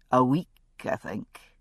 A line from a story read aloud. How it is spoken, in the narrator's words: he said quietly